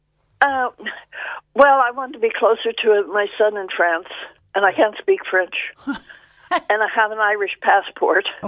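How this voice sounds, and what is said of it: American accent. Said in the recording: “That's not a Skibbereen accent ... It's a US accent.”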